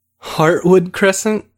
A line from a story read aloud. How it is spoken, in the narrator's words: Victor said with a laugh